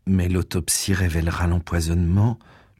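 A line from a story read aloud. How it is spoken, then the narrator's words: Youngest one murmuring. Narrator (French): murmurait le Benjamin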